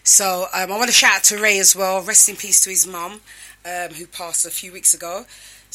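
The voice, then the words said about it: Strained, partly lost voice. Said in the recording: “I done a couple of voiceovers, hence why my voice is gone.”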